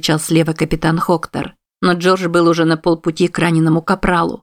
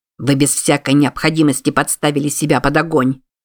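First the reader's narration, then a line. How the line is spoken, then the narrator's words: Irritated. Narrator (Russian): раздраженно сказал ему Хоктор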